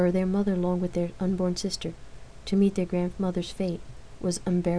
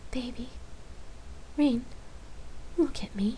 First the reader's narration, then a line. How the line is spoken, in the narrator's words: Lark pleaded